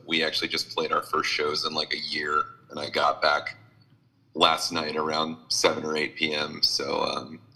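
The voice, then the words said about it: Slightly hoarse, scratchy tired voice. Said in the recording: “I'm a little burnt. I don't know if you can hear it in my voice ... a little cooked ... I can hear just a little bit of the scratch”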